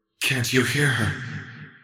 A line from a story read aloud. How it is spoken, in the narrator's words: Seraphine asked softly